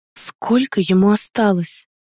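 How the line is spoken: Fearful whispered question. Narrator (Russian): шепотом спросила, боясь услышать ответ

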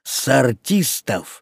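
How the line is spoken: Very rude. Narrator (Russian): прибавил он уже совсем грубо

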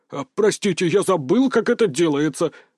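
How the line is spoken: Snapped back. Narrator (Russian): огрызнулся Петр

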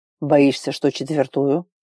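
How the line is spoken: Snort behind door. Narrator (Russian): хмыкнули за дверью

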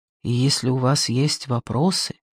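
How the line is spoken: Quiet. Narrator (Russian): тихо проговорив напоследок

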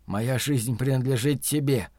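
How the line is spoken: Whispered reply. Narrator (Russian): А мусорник прошептал в ответ

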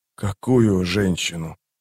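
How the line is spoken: Hoarse croak. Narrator (Russian): прохрипел Паран

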